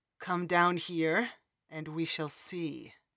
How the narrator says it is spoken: Laeron growled

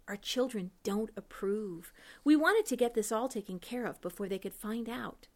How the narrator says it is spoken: She in a whisper added

